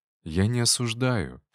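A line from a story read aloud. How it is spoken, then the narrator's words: Calm. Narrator (Russian): спокойно ответил я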